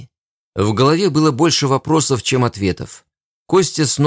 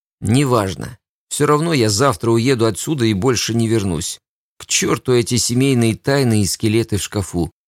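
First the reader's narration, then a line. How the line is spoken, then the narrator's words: Tired sigh. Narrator (Russian): Устало вздохнул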